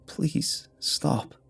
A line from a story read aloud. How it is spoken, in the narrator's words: I said, but my voice was too dry to make sound